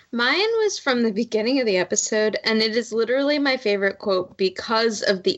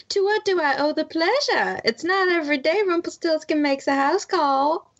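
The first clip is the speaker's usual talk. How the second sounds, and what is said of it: Evil Queen in a Southern Belle accent. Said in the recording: “accent with which the Evil Queen says it, but she, with her best Southern Belle impression”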